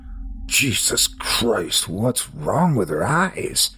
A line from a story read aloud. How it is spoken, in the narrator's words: Henry asked, his voice wavering